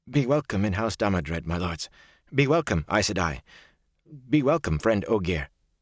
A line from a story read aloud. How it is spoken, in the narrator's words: In a strangled voice he said